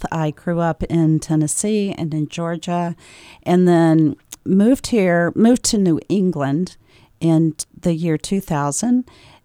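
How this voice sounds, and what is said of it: Southern US accent. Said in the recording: “I have a little bit of an accent... I am from the South”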